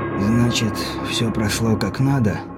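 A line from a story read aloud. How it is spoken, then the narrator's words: Weary king's question. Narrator (Russian): спросил король, устало откинувшись на подушке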